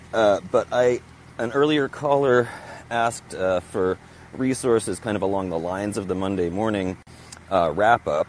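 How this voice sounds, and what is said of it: Slightly out of breath. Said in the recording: “walking a dog as usual, so if I'm out of breath, that's why.”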